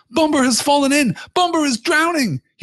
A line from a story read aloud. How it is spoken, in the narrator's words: cried